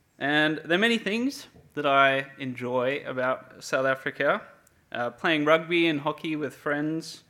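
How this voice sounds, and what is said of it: South African accent. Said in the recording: “if it isn't obvious already by my accent, I was not born here in Perth. I'm originally from Cape Town, South Africa”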